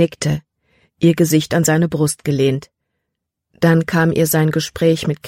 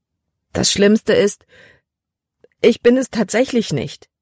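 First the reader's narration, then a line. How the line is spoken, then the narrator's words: Wailing. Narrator (German): jammerte sie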